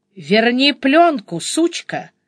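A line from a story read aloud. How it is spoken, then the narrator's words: Growl. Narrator (Russian): прорычал Андрей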